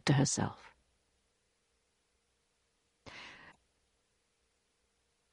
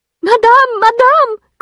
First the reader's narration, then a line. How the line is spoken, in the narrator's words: cried Félicité, rushing in